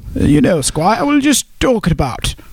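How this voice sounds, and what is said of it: Put-on British accent. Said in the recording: “That was a good accent, wasn't it?”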